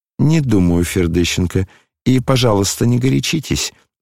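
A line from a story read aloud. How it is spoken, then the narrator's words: Dry remark. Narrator (Russian): сухо заметила она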